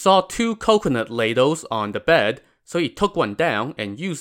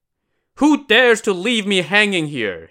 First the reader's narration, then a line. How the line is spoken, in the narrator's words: he shouted